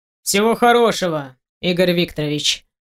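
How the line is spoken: Sharp reply. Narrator (Russian): Резко отвечаю

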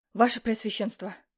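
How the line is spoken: Breathless messenger. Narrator (Russian): выдохнул гонец

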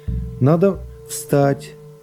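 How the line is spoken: Soft, gentle. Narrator (Russian): прибавил он мягко и ласково

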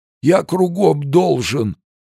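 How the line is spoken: Old man whimpering, trembling. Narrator (Russian): продолжал хныкать старик, весь дрожа от жажды алкоголя

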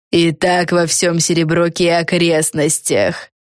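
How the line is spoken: Relishing, pleased. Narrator (Russian): С наслаждением проговорила

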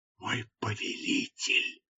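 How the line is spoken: Whisper. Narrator (Russian): прошептала она

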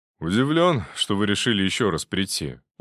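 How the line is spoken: Weary. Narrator (Russian): устало проговорил Громов

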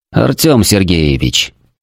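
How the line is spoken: Calm but firm reply. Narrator (Russian): спокойно, но с нажимом ответил

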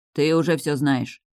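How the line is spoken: Smirking grunt. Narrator (Russian): хмыкнул Стейс

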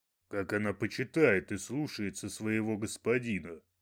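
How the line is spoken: Dry remark. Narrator (Russian): сухо заметил Талуфа

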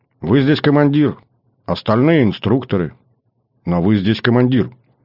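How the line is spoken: Calm, not servile. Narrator (Russian): Девушка спокойно, абсолютно без подобострастия ответила

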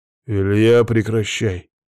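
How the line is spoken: Stern. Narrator (Russian): строго произнес Никифоров

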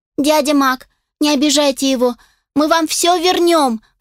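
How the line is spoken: Sniffling plea. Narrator (Russian): взмолилась Астер, заранее шмыгая носом

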